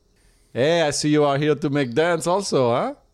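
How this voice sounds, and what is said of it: Put-on French accent, broken English. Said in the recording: “he is a French guy who moved to the States with very limited English ... You have an accent.”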